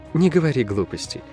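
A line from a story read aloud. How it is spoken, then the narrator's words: Soft reply. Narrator (Russian): мягко ответила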